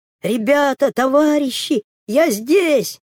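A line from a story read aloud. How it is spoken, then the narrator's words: Shouting again. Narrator (Russian): еще раз крикнул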